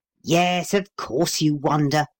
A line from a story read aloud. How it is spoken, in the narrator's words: growled Paul